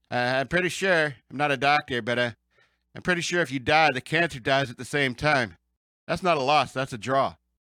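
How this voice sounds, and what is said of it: Imitates another person's voice. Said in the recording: “should I do the Norm MacDonald voice?”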